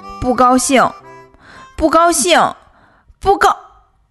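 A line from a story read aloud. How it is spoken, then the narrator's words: Loud shouting. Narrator (Chinese): 不高兴 大叫大嚷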